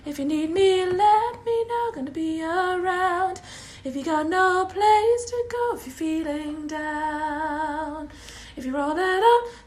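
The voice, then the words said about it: Hoarse, strained singing voice. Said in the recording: “my voice is completely gone”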